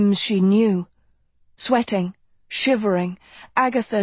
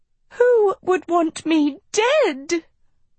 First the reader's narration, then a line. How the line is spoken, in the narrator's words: Sophie wailed